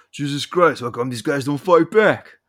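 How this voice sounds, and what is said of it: Imitates another person's voice. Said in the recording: “my Stallone impression.”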